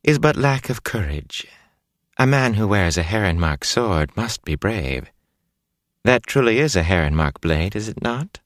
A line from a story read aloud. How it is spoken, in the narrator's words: Bellavere said sweetly